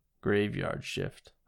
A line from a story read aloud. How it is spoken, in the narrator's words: mutter